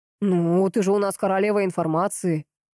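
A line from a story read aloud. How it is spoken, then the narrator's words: Smirking snort. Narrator (Russian): хмыкнул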